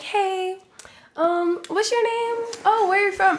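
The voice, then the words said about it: Fake excited voice. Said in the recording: “gave me the fake voice ... an excited version of me”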